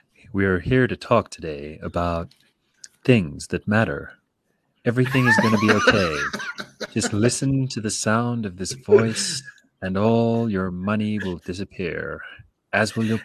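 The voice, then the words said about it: Soothing public radio announcer voice. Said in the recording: “That was a very good ... American ... National Public Radio voice.”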